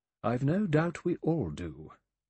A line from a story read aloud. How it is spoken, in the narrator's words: Emily Brent said dryly